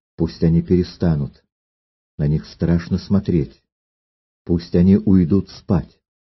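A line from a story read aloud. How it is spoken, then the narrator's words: Timid. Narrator (Russian): Робко она сказала ему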